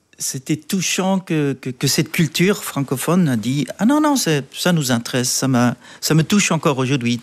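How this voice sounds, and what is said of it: Strong Swiss German accent in French. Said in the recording (French): “mon accent est encore grand ... Je suis Suisse-Allemand ... il a un accent”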